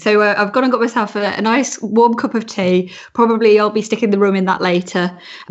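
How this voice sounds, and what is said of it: Hoarse voice with a cold. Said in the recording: “I'm partially losing my voice. I've got a really bad cold”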